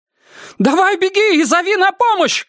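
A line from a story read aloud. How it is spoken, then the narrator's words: Shouted. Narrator (Russian): крикнула ей Герт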